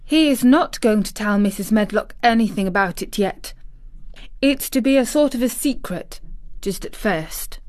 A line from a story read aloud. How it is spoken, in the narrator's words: said Mary firmly